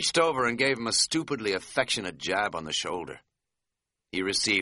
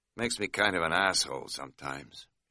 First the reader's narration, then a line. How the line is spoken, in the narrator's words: he said quietly but sincerely